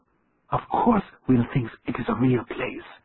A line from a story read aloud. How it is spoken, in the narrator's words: he whispered